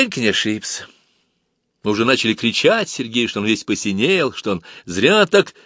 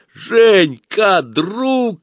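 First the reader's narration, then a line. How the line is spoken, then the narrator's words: Sudden shout. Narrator (Russian): закричал он неожиданно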